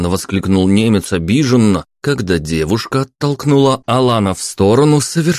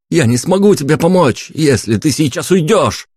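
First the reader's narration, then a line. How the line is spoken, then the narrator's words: Full-lunged shout. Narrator (Russian): крикнул я на всю силу легких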